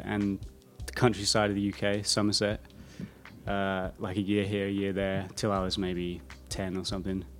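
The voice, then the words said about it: English accent, sometimes taken for Australian. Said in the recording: “the accent's staying the same ... I didn't know you had an accent ... most people think that I'm from Australia”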